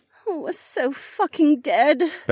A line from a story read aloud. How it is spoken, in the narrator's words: Becca groaned